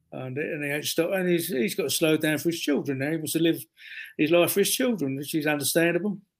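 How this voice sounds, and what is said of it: Strong London accent. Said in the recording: “can you understand my London accent? ... Not a lot of people can.”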